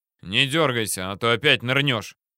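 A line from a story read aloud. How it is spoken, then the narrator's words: Growling. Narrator (Russian): рыкнул на меня Мамонтов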